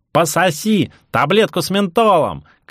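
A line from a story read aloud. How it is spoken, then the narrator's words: Shouted. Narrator (Russian): крикнул кто-то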